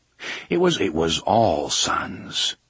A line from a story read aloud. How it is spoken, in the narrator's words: Roland murmured